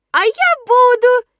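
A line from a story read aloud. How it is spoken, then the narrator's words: Sudden squeak. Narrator (Russian): неожиданно пропищал мой милый Пятница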